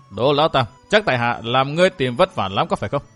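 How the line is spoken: Cold, calm, smiling. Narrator (Vietnamese): Vẫn với vẻ lạnh lùng từ tốn, Địch Tuân giữ một nụ cười bất biến trên môi nói

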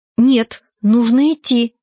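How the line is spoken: Frightened. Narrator (Russian): испуганно говорила она

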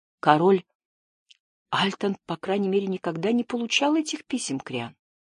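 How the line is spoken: Soft, gentle. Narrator (Russian): мягко произнес Джаред

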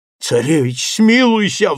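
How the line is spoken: Wailing plea. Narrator (Russian): взвыл Иван

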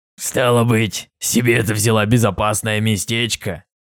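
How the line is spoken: Snide whisper. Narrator (Russian): ехидно прошептал Фаций

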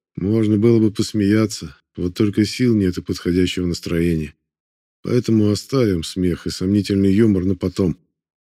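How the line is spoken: Heavy sigh. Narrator (Russian): тяжело вздохнул и добавил

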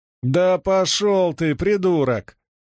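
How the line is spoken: Yelled. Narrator (Russian): заорал

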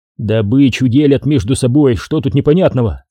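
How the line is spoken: Grumbling. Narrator (Russian): проворчал Никитин

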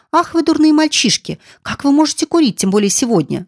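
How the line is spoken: Reproachful exclamation. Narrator (Russian): воскликнула Роза с упреком

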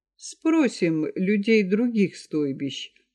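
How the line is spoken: Calm, unchanged tone. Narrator (Russian): продолжал Ахин так же спокойно, как и раньше

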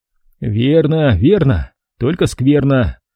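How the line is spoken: Grumbling. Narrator (Russian): проворчал я

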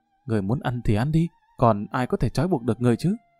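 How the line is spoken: Soft irritated snap. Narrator (Vietnamese): Đại tiểu thư khẽ gắt một tiếng

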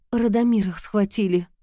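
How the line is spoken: Old woman sighing. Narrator (Russian): старуха вздохнула

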